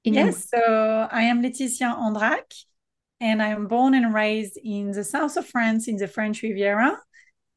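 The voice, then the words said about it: Slight French accent. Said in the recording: “we might hear a little accent there”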